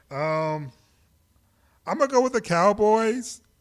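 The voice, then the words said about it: Reluctant, begrudging tone. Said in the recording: “Begrudgingly... You heard it in my voice”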